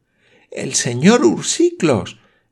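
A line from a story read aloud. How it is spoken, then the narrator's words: Exclaiming. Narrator (Spanish): exclamó la señorita Campbell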